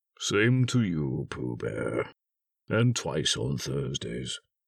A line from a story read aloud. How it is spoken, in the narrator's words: said Eeyore gloomily